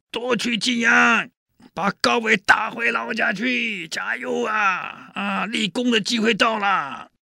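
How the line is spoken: Shouting. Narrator (Chinese): 宇文新高喊

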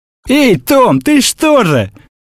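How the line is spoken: Shouting. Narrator (Russian): крикнул Гризби

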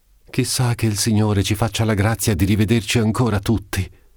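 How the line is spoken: Exclaimed. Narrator (Italian): esclamò Lucia

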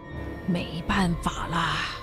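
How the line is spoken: Murmuring to himself. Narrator (Chinese): 克罗马蒂将军看着逐渐破晓的天际，喃喃自语

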